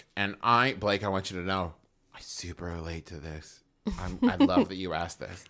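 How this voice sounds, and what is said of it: Smooth public-radio announcer voice. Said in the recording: “He put his NPR voice on for you.”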